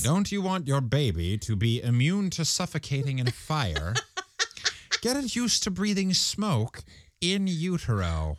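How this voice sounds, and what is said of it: Strange put-on scientist-like dialect. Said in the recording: “What in God's name is this dialect that I'm doing? It's very strange. ... you sound like a scientist of some sort”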